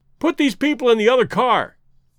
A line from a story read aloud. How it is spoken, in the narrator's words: shouted the stranger to Clayton